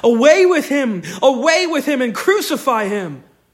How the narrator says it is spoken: And they cried out

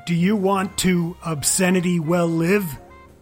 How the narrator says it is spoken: shouting

